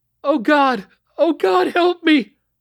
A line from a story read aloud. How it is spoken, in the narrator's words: screamed the woman